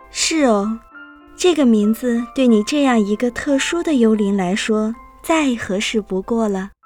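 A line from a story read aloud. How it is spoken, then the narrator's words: Gentle, smiling. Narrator (Chinese): 妈妈微笑着，温柔地念道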